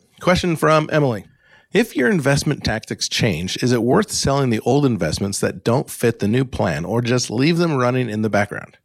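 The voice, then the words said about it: American accent. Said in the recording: “my normal, boring, Alaska-born, Great Lakes-living, United States accent”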